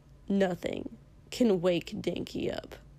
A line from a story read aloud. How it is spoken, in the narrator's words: Kosuke muttered